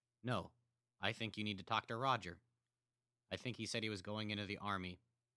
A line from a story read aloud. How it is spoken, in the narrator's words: Carl said in a monotone